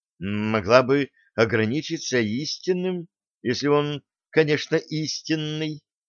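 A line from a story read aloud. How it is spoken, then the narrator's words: Muttered. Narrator (Russian): пробормотала Сальен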